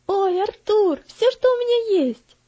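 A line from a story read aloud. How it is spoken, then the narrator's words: Joyful little boy exclaiming. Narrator (Russian): радостно воскликнул маленький мальчик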